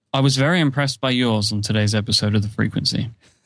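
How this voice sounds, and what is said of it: British accent. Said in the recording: “that accent of yours ... British accents”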